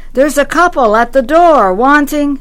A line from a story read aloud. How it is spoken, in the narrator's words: put my mouth to his ear and shouted